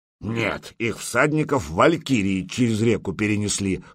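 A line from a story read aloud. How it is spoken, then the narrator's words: Wry grunt. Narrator (Russian): хмыкнул Гудмунд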